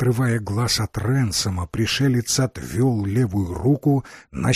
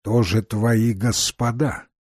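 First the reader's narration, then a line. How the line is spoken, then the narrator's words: Plain. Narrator (Russian): спросил пришелец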